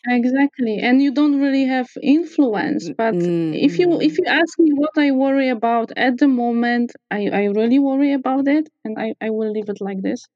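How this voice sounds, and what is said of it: Polish accent. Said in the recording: “based on your accent and your name, you're Polish”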